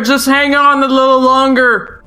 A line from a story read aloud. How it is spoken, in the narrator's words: Link called back, his voice being warped over the loud howling noises